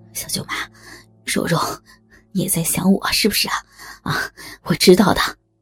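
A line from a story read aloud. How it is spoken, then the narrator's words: Panting. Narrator (Chinese): 周小坤喘着气说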